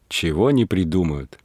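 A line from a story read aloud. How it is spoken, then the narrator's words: Laughing. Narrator (Russian): смеясь говорила Варвара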